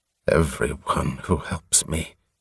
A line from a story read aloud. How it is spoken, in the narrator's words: he muttered again